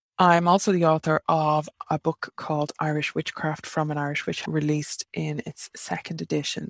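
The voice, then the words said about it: Irish accent. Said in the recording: “an Irish three and witch living in Ireland, in case you can't tell from the accent”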